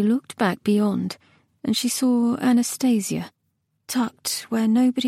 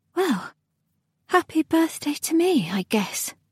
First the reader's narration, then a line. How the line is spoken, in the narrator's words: sighed Nona